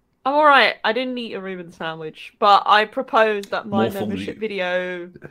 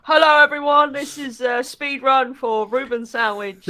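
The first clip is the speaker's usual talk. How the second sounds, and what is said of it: Imitates a typical speedrunner voice. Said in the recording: “That's just an impression of speedrunner. ... All speedrunners sound exactly like that.”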